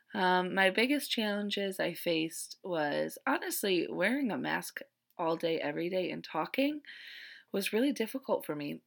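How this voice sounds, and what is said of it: Slightly hoarse voice. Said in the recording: “You could probably hear it in my voice. I'm a little bit hoarse”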